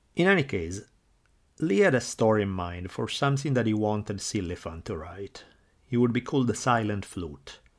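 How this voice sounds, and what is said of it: Thick foreign accent. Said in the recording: “the accent part, not the easiest thing to get rid of ... your accent is way thicker than his”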